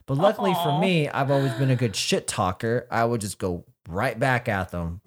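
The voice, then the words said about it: Nasal, congested-sounding voice. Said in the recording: “this nasally ass voice ... I sound like I got that fucking nasal ... I'm just so congested all the time that it's just part of who I am”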